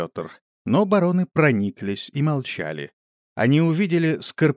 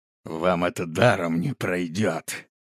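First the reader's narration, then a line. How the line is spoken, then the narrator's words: Through gritted teeth. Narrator (Russian): Лишь тот, кто поднялся с земли, сбитый воздушным кулаком, сквозь зубы процедил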